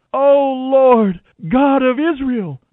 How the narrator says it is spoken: they cried out

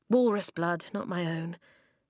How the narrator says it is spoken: he sighed

